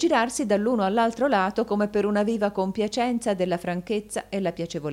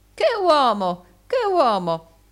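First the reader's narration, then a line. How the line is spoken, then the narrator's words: Calm exclamation. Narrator (Italian): non mostrò alcun indizio di collera e si contentò di esclamare come prima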